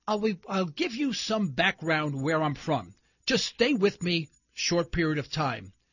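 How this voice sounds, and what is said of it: New York City accent. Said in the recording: “you probably have detected from my accent, I am probably not from Oklahoma. Yes, I'm from New York City. In fact, I'm a Harlem boy from New York City.”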